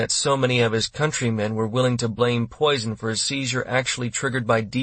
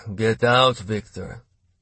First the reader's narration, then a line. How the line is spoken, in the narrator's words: Gryzlov said with a heavy sigh